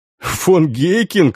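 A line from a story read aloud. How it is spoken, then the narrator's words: Laughing, stocky man. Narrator (Russian): рассмеялся коренастый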